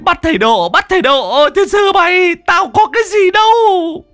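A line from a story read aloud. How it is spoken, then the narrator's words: Whimpering, near tears. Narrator (Vietnamese): Thằng Cổ mếu máo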